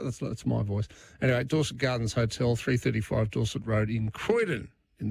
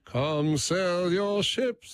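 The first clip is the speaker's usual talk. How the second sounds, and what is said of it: Imitates another person's voice. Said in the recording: “my Dennis Walter impersonation ... Not very good.”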